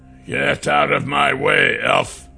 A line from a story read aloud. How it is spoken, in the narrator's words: Brenmar growled